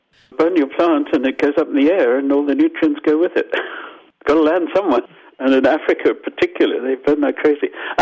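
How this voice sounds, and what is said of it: Zimbabwean accent. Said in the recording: “I'm Zimbabwean, as you probably got from my accent.”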